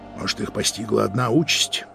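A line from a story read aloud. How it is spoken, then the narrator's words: Quiet. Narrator (Russian): тихо проговорил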